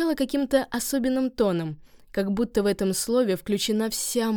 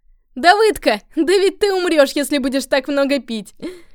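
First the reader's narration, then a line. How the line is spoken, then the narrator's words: Laughing teasing. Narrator (Russian): Скажет, смеясь Давыдке, какой-нибудь из обитателей пансиона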